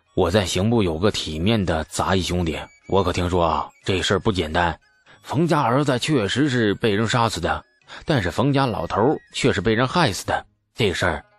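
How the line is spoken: Hushed, low voice. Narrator (Chinese): 故意压低了声音

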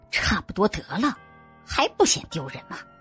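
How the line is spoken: Low-voiced warning. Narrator (Chinese): 她压低了嗓子提醒着

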